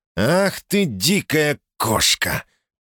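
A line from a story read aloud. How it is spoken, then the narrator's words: Hiss. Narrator (Russian): прошипел Эдвард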